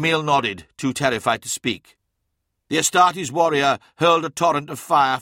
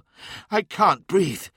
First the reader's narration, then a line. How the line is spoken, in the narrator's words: she gasped